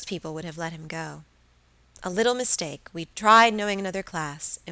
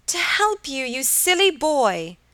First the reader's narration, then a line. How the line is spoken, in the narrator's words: cried Helen